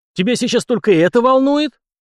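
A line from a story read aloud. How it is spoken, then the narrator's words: Barked. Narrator (Russian): рявкнул князь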